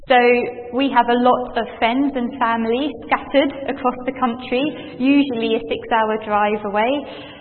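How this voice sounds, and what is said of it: Southern English accent. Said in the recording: “you might be able to hear from my accent,... are not from Cumbria, we're from the south of the country”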